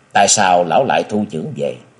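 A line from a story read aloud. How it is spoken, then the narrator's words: Smiling question. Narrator (Vietnamese): Lý Mộng mới mở mắt ra nhìn cái nô mỉm cười, chàng hỏi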